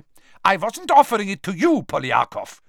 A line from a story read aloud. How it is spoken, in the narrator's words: snapped Karkaroff, his warmly paternal air vanishing in an instant